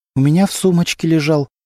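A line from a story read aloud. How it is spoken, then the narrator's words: Trembling voice. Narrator (Russian): дрожащим голосом ответила Антонина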